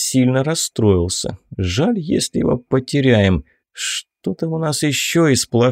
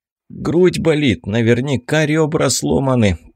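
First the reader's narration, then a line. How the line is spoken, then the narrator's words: Groaning in pain. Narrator (Russian): простонал Ричард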